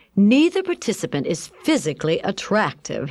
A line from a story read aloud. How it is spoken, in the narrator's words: exclaimed